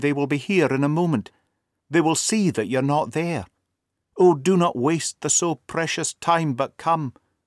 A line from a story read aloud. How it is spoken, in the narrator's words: she cried breathlessly